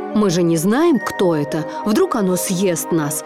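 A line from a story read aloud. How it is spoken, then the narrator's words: Grumbling. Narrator (Russian): проворчал Марлин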